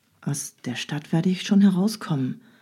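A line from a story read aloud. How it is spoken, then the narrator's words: Courier murmuring to companion. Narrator (German): raunte der Kurier seinem Begleiter zu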